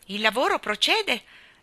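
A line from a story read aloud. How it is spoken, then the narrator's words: Exclamation. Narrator (Italian): esclamò Mary Poppins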